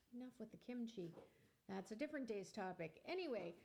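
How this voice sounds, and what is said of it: Exaggerated radio announcer voice. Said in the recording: “Here's my radio voice.”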